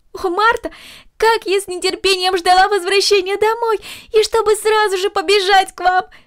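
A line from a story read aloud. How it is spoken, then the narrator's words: Exclaimed. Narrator (Russian): воскликнула Корнелли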